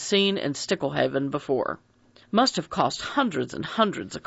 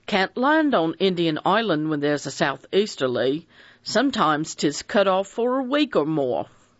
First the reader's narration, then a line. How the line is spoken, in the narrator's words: Fred Narracott said cheerfully